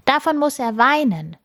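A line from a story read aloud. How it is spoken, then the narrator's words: Boy calling out. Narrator (German): ruft ein Junge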